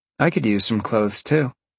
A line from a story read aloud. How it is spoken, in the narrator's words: Jolene sighed